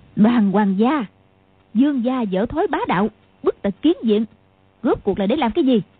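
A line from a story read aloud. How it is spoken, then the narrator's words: Shrill voice. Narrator (Vietnamese): bóng đen kia nói bằng giọng the thé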